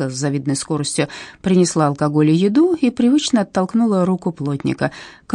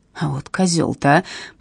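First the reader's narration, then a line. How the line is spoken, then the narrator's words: Electrician's mutter. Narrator (Russian): пробормотал электрик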